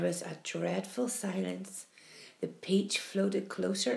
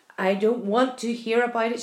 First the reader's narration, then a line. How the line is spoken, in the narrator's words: shrieked the blind earthworm